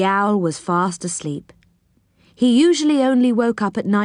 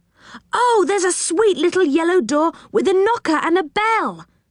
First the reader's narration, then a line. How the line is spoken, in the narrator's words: cried Rick in surprise